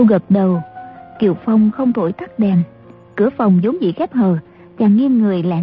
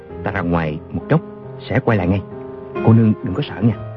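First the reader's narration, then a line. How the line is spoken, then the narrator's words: Softly. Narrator (Vietnamese): Chàng khẽ bảo A Châu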